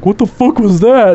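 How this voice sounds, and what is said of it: Imitates another person's voice. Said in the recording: “my best Maximus impersonation”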